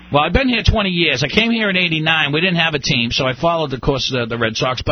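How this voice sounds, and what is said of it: Boston accent. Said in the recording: “a Boston Bean accent”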